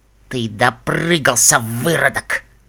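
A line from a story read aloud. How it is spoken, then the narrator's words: Quiet hiss. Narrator (Russian): прошипел Фрай так, чтобы слышал его только Десс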